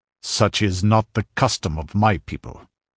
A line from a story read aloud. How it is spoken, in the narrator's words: Conan growled